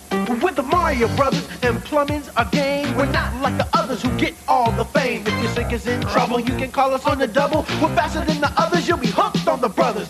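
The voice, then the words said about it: Sung cartoon Mario character voice. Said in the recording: “my Mario impression? That was a really good one”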